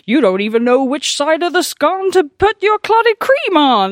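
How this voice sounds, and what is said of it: Bad put-on Devon/Cornish accent. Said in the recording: “that is so that is such a bad Devon accent ... or Cornish accent. I don't even know what accent I was trying to do.”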